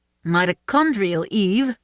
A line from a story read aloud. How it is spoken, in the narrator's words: Suze said firmly